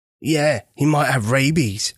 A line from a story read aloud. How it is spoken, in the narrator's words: Albert declared excitedly